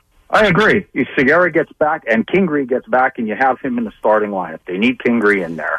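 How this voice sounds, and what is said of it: Rochester, New York accent. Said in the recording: “I love that accent. I was playing golf with a guy last week from Rochester, New York ... And he had that same accent.”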